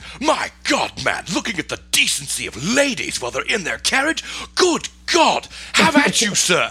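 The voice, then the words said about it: Exaggerated British accent impression. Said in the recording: “that's like yours and my legit, like, British impersonation voice right there”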